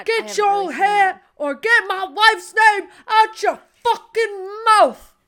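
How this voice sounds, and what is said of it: Imitates another person's voice. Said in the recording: “That was such a good impression... No, it wasn't. Yes, that one was bad.”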